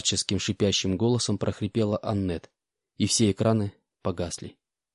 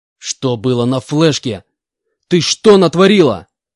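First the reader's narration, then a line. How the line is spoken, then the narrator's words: Shouted furiously. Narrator (Russian): яростно прокричал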